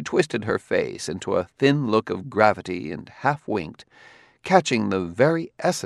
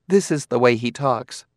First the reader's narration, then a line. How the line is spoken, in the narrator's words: said